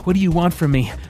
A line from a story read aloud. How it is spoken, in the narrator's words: Merrick panted